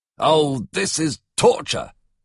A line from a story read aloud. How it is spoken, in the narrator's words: he exclaimed